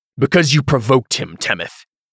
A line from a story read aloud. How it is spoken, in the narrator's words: Cantarius barked